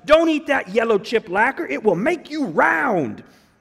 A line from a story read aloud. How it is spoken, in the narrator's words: Climbing angrily through the bleachers, he shouted